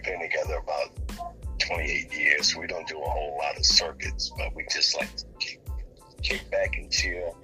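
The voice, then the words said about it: Smooth, resonant radio voice. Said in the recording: “you have such a nice radio voice ... you have a very nice radio voice”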